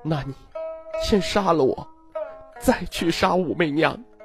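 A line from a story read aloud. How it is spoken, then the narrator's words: Mournful weeping. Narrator (Chinese): 他哀哭道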